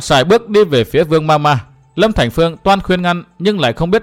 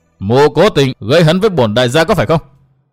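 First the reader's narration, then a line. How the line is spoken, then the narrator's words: Shout. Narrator (Vietnamese): Tô Bách Khôi quát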